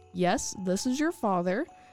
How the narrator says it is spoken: his voice quavered

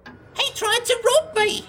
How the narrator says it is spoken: cackled

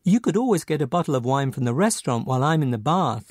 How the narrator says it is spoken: Lara said

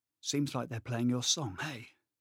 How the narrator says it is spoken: whispered to his partner with a smirk

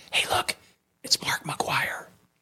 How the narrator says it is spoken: my friend whispers

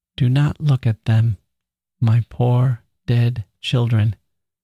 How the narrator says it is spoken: said tenderly

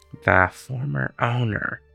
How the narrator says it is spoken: lowered his voice again in apology

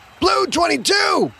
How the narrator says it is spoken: Quentin shouted behind him

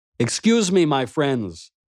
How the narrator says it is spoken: I called out to them

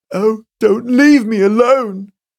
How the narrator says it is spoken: cried Mrs

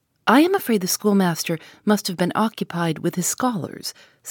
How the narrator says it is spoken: said Miss Halcombe

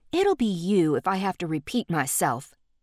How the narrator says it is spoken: Dee snapped back

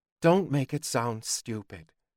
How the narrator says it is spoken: Joey said quietly

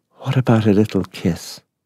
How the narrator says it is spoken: he whispered

